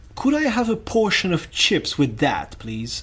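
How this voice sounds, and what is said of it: Proper British accent, clipped t. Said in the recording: “pretty good ... the British accent ... a clipped kind of t. That's why it sounds proper”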